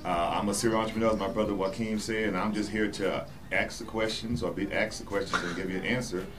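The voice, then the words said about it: Southern US accent. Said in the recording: “yes, I'm Southern ... if you didn't hear that in my tone ... I'm from South Carolina ... the accent coming out”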